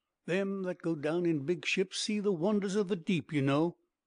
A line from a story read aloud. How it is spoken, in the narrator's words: he added with a sudden chuckle